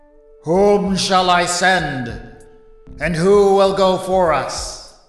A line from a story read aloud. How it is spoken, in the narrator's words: the voice of Yahweh booming from the platform and saying